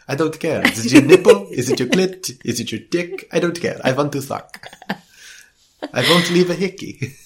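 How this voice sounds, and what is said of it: Vampire character voice. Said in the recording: “That's the best vampire I do. ... my accents are terrible.”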